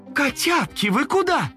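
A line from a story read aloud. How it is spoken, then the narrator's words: Mother calling after. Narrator (Russian): мама закричала им вслед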